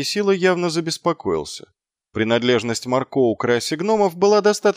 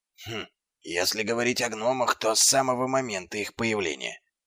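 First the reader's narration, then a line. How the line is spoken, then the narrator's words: Whispered. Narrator (Russian): прошептал Дубинс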